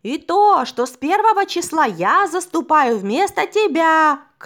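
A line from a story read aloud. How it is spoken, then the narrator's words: Shouted. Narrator (Russian): крикнул гость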